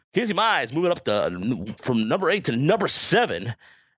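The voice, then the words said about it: Radio announcer voice. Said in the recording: “let me use my radio voice.”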